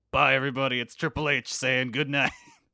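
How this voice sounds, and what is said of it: Bad Triple H impression. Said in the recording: “That's a terrible Triple H impersonation. ... It's a really bad Triple H voice.”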